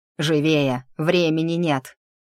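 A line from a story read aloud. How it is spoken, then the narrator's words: Barked. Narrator (Russian): рявкнул Элви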